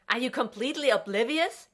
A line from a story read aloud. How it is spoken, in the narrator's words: John yelled from the other room